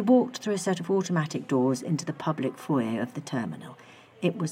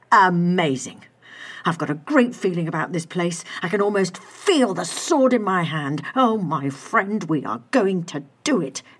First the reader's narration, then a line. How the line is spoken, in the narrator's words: Adam cried triumphantly